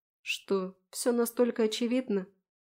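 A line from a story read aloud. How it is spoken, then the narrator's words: Glum question, heavy sigh. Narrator (Russian): Уныло интересуюсь, снова не удержав тяжкого вздоха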